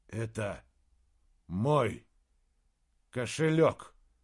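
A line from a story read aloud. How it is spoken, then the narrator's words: Plain. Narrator (Russian): сказал Саймон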